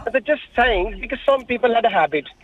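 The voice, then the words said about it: Pakistani-accented English. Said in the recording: “I'm detecting an accent... I'm from Pakistan.”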